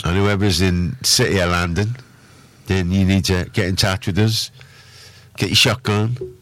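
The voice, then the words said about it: Badly done put-on accent. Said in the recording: “That's an awful accent. ... Terrible, isn't it? ... That's terrible.”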